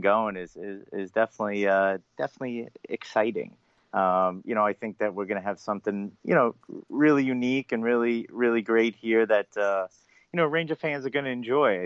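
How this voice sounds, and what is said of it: Long Island accent. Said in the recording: “my Long Island accent ... That's a wonderful accent”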